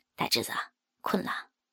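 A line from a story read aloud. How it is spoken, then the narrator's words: Soft question. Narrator (Chinese): 刘大牛 轻声的问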